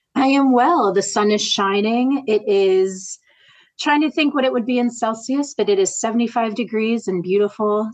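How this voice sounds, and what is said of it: American accent. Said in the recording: “based in the US, if you can't tell from her beautiful accent.”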